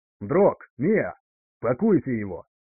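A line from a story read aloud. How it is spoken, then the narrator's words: Contemptuous, through gritted teeth. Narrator (Russian): с пренебрежением процедил Макс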